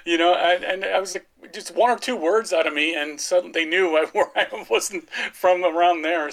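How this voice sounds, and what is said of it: Strong American accent. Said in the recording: “my American accent's pretty strong”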